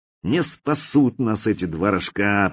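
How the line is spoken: Grumbled. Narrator (Russian): проворчал я

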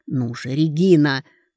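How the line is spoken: Impatient mutter through teeth. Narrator (Russian): Карей нетерпеливо сквозь зубы пробормотал

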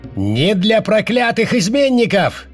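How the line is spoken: Shout. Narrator (Russian): крикнул другой

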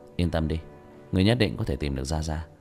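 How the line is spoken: Sighing reassurance. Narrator (Vietnamese): Tiểu Thất thở dài

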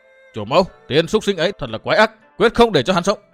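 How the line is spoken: Sharp shout. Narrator (Vietnamese): quát

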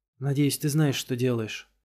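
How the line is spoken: Muttering. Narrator (Russian): пробормотала Беатрис

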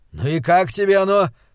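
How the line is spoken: Jubilant exclamation. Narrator (Russian): ликующе воскликнул он

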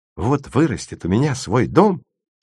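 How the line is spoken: Dejected voice. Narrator (Russian): сказал леденец с унывным голосом

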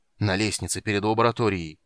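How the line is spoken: Growled. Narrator (Russian): прорычал Карамон

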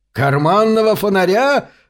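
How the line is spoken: Howling. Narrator (Russian): взвыл хозяин отеля

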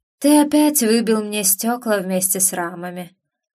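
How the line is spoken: Muffled. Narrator (Russian): глухо проговорила Оракул

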